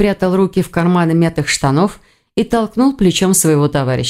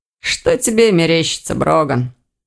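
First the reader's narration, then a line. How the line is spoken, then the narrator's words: Snorting. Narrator (Russian): хмыкнул Ирс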